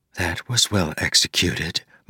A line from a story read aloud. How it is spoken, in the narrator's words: Moonlight whispered